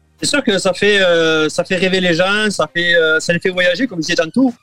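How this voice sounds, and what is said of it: Southern French accent. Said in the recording (French): “son petit accent du sud de la France”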